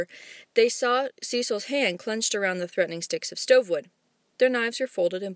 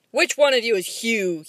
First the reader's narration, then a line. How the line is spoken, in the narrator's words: he thundered